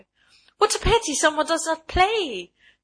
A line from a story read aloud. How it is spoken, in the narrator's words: she cried